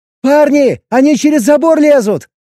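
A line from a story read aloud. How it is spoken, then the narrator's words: Shout. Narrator (Russian): крикнула Эбби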